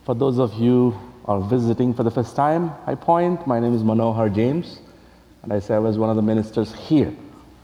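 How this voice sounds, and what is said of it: Strong accent, hard to understand. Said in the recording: “tolerating my accent ... some of you really struggle to understand”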